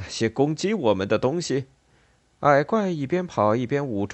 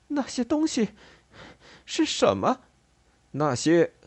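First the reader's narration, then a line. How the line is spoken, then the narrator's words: Breathless question. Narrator (Chinese): 西蒙气喘吁吁地问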